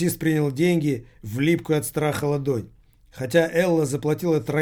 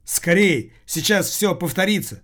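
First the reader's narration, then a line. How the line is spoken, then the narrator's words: Taxi driver's rough shout. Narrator (Russian): грубо прикрикнул таксист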